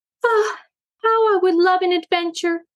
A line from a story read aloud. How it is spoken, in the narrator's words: sighed Daisy